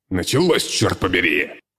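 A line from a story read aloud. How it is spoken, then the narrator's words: Barked. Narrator (Russian): рявкнул огурец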